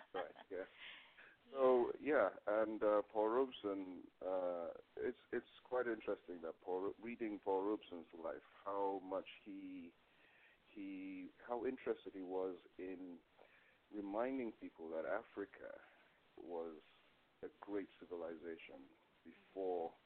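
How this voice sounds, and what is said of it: Slight Nigerian accent. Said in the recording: “I actually come from Nigeria. You may be able to hear a bit of an accent in my voice.”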